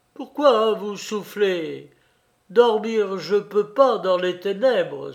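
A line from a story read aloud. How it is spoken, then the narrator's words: Exclaiming in French-Russian jargon. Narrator (French): s'écria Antoine Pavlovitch dans un jargon moitié français, moitié russe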